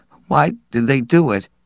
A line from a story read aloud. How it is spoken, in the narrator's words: Sharp asked brokenly